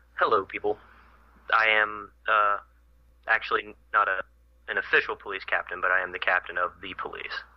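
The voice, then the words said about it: American accent. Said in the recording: “an American accent”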